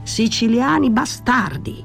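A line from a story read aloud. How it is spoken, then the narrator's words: Shouted. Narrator (Italian): gridò Danny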